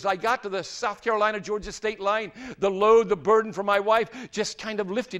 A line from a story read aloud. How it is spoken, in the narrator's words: he said